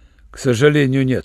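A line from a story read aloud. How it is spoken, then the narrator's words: Rough. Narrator (Russian): грубо сказал Руальд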